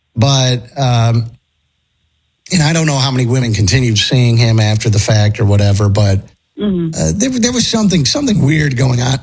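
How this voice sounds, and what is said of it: Strained, failing voice. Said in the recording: “I'm losing my voice.”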